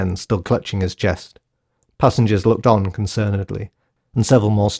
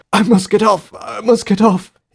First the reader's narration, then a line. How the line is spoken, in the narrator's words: he coughed hysterically